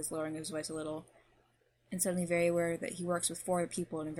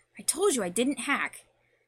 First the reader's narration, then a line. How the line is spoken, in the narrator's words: the British voice snaps back at him